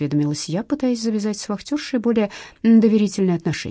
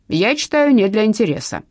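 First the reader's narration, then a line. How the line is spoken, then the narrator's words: Stern. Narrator (Russian): строго ответила тетка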